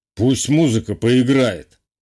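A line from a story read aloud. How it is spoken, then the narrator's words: Snorting. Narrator (Russian): хмыкнул Самойлов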